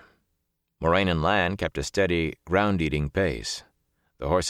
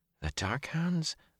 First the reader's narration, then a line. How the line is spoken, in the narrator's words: Zareen muttered